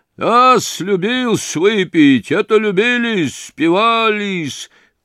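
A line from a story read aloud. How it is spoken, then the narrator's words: Sudden drunken shout. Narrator (Russian): крикнул вдруг отставной Провианский, осушая 12-ю рюмку водки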